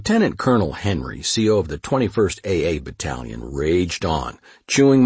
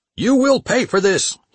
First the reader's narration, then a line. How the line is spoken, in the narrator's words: he screamed